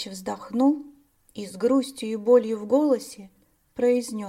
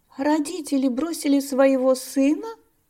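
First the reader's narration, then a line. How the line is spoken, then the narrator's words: Surprised exclamation. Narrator (Russian): с удивлением воскликнула Дария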